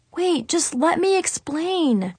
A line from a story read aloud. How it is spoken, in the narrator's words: Brandon pleaded